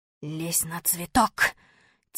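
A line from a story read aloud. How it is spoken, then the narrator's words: Quiet whisper. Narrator (Russian): тихо шепнул я Малинину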